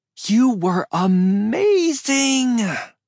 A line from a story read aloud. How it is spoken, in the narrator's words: she squealed